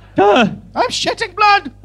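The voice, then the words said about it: Poor put-on Irish accent. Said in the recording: “It's shitty, but it's an Irish accent.”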